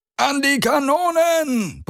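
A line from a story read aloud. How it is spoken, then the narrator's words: Roaring shout. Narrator (German): brüllte jemand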